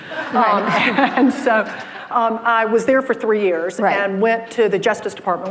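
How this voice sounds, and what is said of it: Southern American accent. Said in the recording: “I am discerning a Southern accent that you have.”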